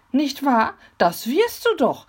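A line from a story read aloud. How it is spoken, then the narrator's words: Excited question. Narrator (German): fragte sie aufgeregt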